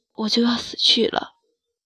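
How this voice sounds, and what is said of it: Breathy, almost gasping voice. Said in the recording (Chinese): “用近乎喘息的声音说”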